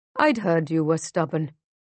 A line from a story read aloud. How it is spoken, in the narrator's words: Musa sighs